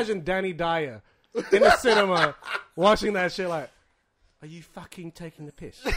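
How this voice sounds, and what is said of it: Usual voice. Nothing is said of it.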